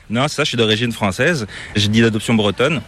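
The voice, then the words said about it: Slight accent, not Québécois. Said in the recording (French): “tu as une petite pointe d'accent qui est assez difficile de deviner... c'est pas l'accent québécois”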